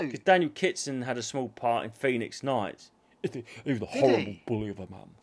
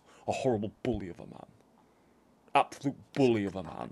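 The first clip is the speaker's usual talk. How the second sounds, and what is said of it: Imitates another person's voice. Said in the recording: “Very good impression.”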